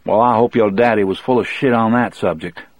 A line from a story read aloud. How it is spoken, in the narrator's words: Brutal said